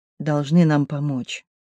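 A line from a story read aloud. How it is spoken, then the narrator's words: Sudden quiet voice. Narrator (Russian): вдруг тихо сказала Сдена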